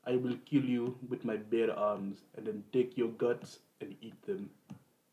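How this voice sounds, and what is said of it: Stereotypical put-on Russian accent. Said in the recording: “What's your best Russian accent? ... That wasn't stereotypical at all.”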